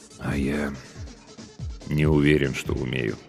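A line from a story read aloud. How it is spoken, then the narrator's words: Quiet. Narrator (Russian): тихо продолжил капитан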